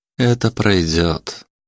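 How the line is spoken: Soft. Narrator (Russian): мягко сказал Александр

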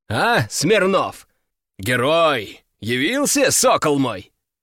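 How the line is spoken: Booming bass. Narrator (Russian): Его бас прогремел под сводами приемной так, что, казалось, задребезжали стекла

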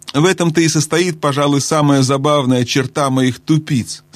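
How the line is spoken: Plain. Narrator (Russian): сказал маг

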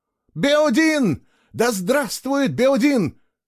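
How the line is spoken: Shouting. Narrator (Russian): кричала она

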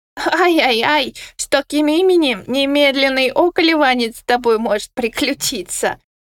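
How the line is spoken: Authoritative, no longer lisping. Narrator (Russian): авторитетно заявил фиолетовый, перестав шепелявить в результате быстрого выращивания утраченного зуба

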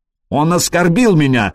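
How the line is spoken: Shouted. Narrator (Russian): закричал Траин

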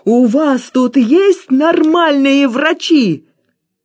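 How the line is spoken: Terrified shout. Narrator (Russian): я перепугался по-настоящему и закричал

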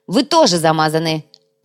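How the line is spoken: Sharp. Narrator (Russian): резко ответил Вилар

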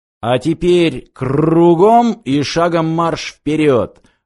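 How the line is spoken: Growled command. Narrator (Russian): рыкнул специалист по каскам

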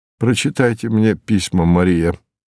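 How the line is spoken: Plain. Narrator (Russian): сказал он

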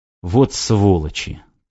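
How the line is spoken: Strained utterance. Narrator (Russian): только и выдавил Максим

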